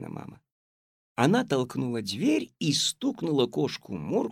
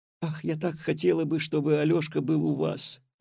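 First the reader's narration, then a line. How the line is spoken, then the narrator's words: Wistful sigh, grandmother. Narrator (Russian): вздохнула бабушка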